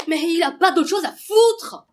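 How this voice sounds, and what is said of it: Shouting angrily. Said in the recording (French): “Arrête de crier ... arrête de crier ... Pourquoi il a crié comme ça? ... avec tes cris”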